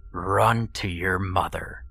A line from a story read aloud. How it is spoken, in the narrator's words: it snarled